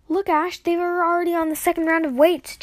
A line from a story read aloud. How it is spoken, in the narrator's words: Jax yelled